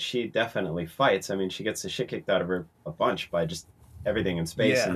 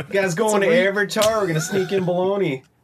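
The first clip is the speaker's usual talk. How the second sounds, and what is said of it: Exaggerated hyper-local regional accent. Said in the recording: “that's a regional accent to one county ... That is truly like an accent that is specific to one KFC in Nevada”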